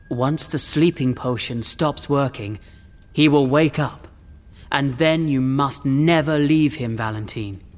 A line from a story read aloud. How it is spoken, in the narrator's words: said the Count